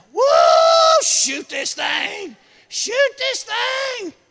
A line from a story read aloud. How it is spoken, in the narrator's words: hollering